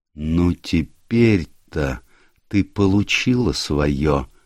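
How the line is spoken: Quiet, spiteful. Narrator (Russian): сказал он тихо, со злобной гримасой

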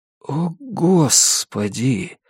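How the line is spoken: Quiet. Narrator (Russian): тихо произнес Джонни

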